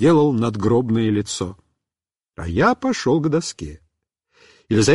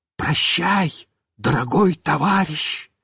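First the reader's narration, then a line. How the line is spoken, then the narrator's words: Whisper. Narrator (Russian): Мишка снова прошептал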